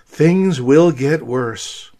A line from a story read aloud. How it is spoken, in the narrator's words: A pessimist in a melancholy tone said